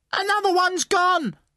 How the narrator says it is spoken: someone screamed

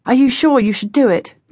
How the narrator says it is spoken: John said anxiously

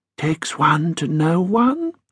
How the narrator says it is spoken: Ambrose muttered

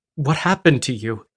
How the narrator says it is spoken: Gasping

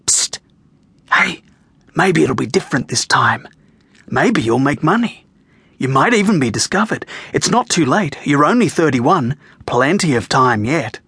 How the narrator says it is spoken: that voice starts whispering to you

